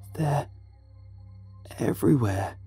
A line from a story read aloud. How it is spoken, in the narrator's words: he rasped, desperation hanging to every word